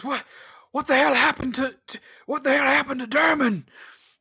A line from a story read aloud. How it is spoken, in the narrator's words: shouts